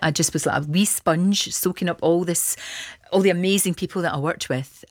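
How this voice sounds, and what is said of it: Glasgow Scottish accent. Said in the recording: “I've got a Glasgow accent”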